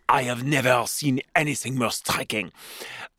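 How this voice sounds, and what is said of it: Put-on French accent. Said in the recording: “I should do that with a French accent.”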